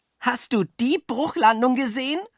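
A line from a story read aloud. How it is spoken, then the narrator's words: Shouting. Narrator (German): schrie Jockel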